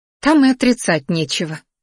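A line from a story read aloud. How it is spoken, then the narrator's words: Snort. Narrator (Russian): снова фыркнула Дионика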